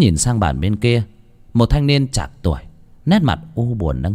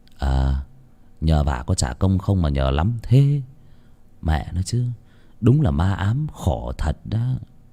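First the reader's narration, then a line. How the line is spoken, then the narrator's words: Muttering. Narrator (Vietnamese): Tuấn lẩm bẩm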